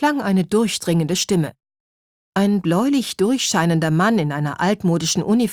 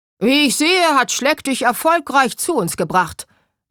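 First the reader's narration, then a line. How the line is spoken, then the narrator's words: Booming very loud. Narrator (German): dröhnte der Mann so laut, dass sein riesiger Schnurrbart erzitterte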